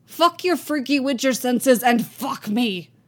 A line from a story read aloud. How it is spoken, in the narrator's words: Yasker snaps